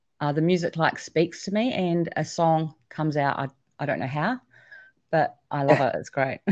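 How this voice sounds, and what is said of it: New Zealand accent. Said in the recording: “I love your accent. I love it. You're from New Zealand, right? ... it's beautiful.”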